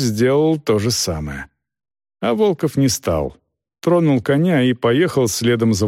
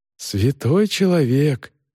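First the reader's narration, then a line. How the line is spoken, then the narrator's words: Sigh. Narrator (Russian): вздохнул Йоган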